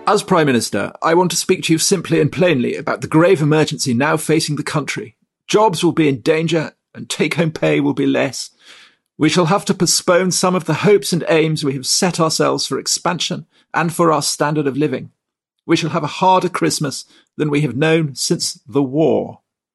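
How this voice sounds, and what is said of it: Imitates another person's voice. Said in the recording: “That was my impression of Edward Heath ... you're on fire with your impersonation”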